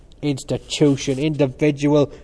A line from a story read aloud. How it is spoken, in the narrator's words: cried Cranley